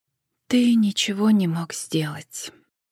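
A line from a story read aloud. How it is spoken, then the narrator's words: Quiet, soft remark. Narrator (Russian): тихо проронила она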